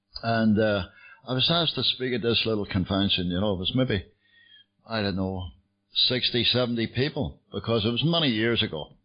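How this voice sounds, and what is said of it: Belfast Northern Irish accent. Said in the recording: “I get sober in Belfast, you can tell from the accent. ... I was born in Belfast.”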